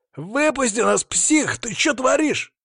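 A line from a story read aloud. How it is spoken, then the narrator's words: Yelling. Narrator (Russian): заорал один из них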